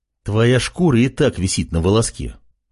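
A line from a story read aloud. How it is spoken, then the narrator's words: Angry. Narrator (Russian): Артем говорил сердитым тоном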